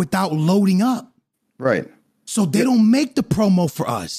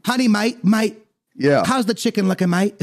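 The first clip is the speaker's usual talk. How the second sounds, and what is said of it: Put-on English accent, poorly done. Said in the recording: “That's my they're English having accent... what do you mean my accent's so bad?”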